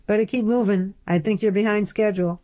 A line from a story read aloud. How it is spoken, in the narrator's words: Upton called out